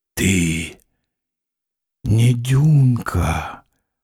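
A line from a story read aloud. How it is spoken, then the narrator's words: Muffled, hollow. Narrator (Russian): сказал он глухо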